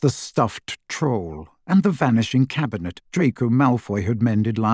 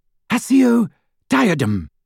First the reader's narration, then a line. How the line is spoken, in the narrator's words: cried Hermione in desperation